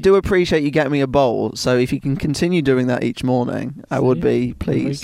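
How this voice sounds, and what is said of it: Calming English accent. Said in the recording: “how are we feeling about ... accent? ... I'm a big fan of it. It's very calming. ... that's the only English accent I know.”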